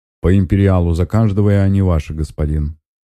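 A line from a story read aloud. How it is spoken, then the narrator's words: Confident voice. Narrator (Russian): уверенным голосом говорит он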